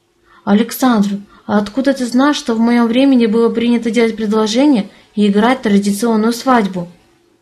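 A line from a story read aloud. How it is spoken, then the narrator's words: Plain. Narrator (Russian): спросила я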